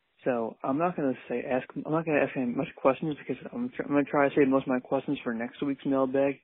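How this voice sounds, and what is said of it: Quiet half-whispered speech. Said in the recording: “If it sounds like I'm talking quiet ... I'm trying to, like, kind of half whisper, half talk. So if it sounds a little weird ... I have a retainer in right now ... So if I sound funny”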